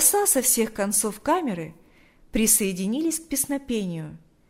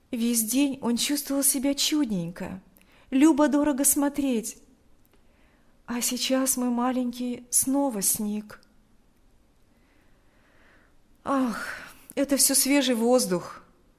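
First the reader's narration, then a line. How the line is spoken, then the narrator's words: Sighing reply. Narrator (Russian): ответил Павел, вздохнув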